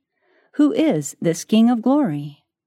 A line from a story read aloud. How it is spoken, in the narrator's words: The angel sentinels at the gate exclaimed